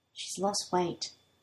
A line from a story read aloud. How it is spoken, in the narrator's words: Shindo says in a quiet voice